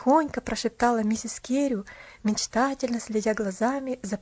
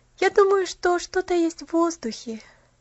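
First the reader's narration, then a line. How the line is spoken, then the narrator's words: Happy sigh. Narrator (Russian): счастливо вздохнула Поллианна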